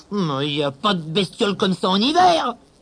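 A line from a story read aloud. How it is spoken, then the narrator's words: Growl. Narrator (French): grogna-t-il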